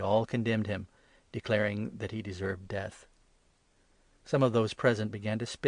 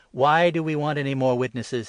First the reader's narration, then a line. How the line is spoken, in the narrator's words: exclaimed